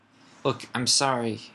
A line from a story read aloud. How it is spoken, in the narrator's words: cried Hermione